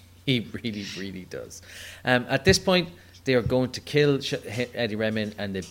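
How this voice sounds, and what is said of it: Usual voice. Nothing is said of it.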